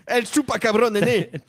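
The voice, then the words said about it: Put-on accent, done badly. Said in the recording (French): “T'as l'air à l'aise avec cet accent, continue. ... Non, je le fais très mal.”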